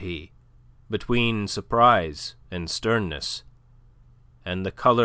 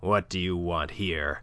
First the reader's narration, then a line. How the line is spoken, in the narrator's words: growled Monsieur de Kercadiou